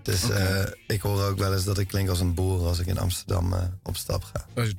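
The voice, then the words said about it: Slight English accent in Dutch. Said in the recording (Dutch): “jij hebt een beetje een Engels accent”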